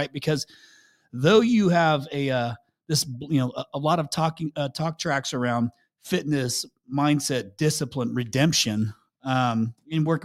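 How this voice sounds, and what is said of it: Smooth radio-style voice. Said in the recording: “You got a great radio voice too. I was surprised. I didn't expect that.”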